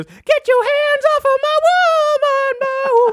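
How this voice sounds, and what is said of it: Sung falsetto. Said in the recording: “falsetto”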